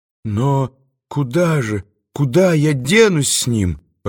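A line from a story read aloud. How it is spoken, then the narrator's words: Timid plaintive question. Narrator (Russian): робко и жалобно спросила Маргарита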